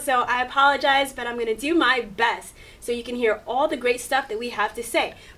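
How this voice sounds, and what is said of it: Hoarse voice, going in and out. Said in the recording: “My voice is a little hoarse. It's going in and out.”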